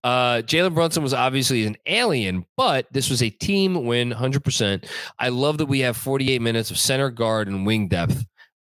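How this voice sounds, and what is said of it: Staten Island New York accent. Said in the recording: “my Staten Island accent to die down. I don't know how to say huge the proper way.”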